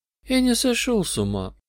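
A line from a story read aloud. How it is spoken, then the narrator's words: Sad madman. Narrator (Russian): сказал безумец печально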